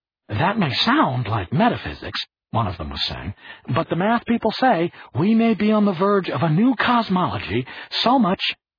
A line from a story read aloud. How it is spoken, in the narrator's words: the other said excitedly